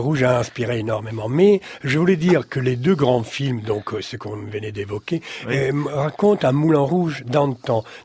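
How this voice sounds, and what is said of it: Italian accent speaking French. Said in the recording (French): “On l'a compris à votre accent, vous avez quelques origines de ce côté-là ... nous parler de chansons italiennes”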